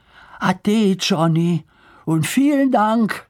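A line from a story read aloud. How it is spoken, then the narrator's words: Calling out. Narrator (German): rief Lars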